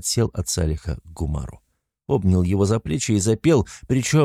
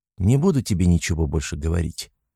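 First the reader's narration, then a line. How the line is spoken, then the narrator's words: Calm response. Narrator (Russian): спокойно отреагировал Сюр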